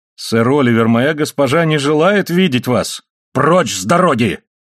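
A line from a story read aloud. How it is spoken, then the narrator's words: Angry, contemptuous shout. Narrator (Russian): крикнул тот с гневом и презрением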